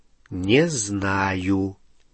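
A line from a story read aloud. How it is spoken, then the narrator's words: Slow reply. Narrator (Russian): медленно ответил Гарри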